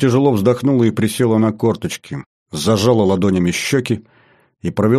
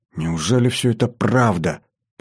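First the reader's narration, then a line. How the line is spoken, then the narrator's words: Muttering. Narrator (Russian): пробормотала она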